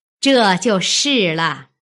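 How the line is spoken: Laughing. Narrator (Chinese): 凤姐笑道

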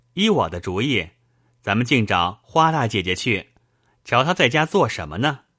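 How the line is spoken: Laughing. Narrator (Chinese): 宝玉笑道

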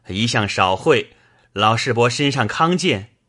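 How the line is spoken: Laughing. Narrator (Chinese): 宝玉薛蟠都笑道

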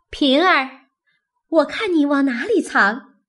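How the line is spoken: Laughing call. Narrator (Chinese): 宝钗笑着叫道

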